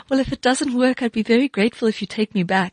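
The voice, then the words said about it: Very sweet voice. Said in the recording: “in my very sweetest voice,”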